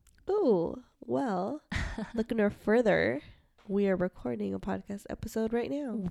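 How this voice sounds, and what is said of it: Congested voice. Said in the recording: “Do you like the congested voice that I have going on?”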